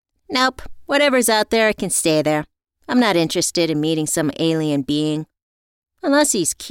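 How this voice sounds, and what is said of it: Usual voice. Nothing is said of it.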